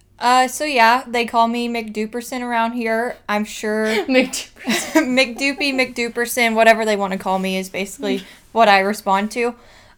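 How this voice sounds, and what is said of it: Kentucky country accent. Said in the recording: “my accent or me being a country bumpkin ... she's a total country bumpkin. She's from Kentucky.”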